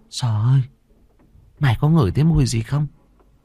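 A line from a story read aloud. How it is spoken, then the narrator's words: Trembling. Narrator (Vietnamese): Nó run run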